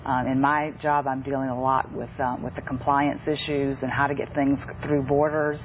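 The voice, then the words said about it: Slight Southern US accent. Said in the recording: “I've detected a slight Southern accent there”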